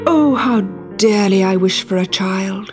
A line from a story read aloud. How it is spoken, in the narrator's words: sighed